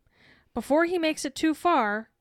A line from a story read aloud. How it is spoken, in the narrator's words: Karkaroff yells